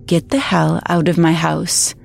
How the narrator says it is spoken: I said in a shockingly calm tone

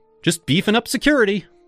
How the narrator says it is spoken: I called out

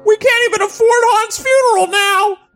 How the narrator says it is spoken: She screamed

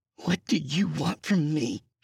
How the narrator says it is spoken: She hissed

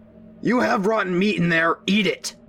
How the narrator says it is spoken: My dad shouted back

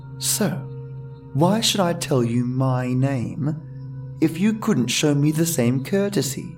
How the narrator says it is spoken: I sighed

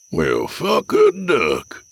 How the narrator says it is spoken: Jack wheezed

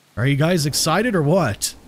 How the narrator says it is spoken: I asked in a loud voice, yelling over the roaring wind

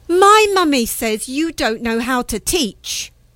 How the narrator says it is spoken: Not wanting to lose face, I shouted defiantly

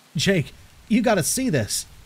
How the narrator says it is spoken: called out

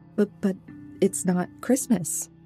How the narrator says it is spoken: I stammered

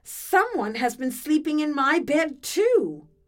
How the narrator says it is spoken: Mama Bear cried

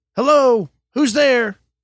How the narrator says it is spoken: shouted

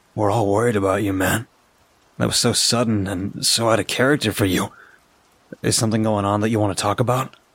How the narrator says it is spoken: sighed and said

